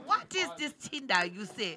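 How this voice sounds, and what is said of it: Put-on accent. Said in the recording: “you needed to say it with a more accent.”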